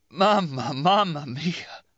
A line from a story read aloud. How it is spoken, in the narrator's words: then choking